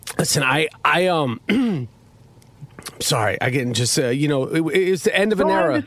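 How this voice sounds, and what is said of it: Choked-up, emotional voice. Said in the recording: “getting choked up”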